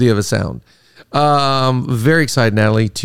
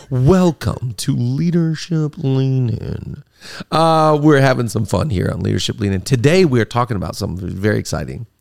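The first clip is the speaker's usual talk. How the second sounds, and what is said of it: Deliberately deeper podcast-host voice. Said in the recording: “podcast voice ... the deeper voice ... I just get to go into a deeper voice”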